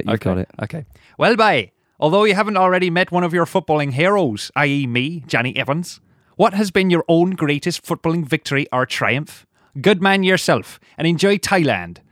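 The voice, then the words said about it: West Country accent impression. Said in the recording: “do an impersonation of him ... Try not to go Indian this time ... Yeah, West Country.”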